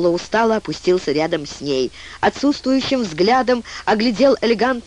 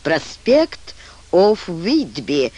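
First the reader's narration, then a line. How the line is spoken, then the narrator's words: Drawl. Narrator (Russian): вместо ответа протянул Ролло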